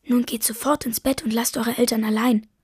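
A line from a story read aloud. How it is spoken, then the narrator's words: Whisper. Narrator (German): flüstert sie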